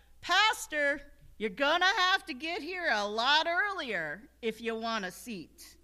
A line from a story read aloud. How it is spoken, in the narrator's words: one of my parishioners yelled out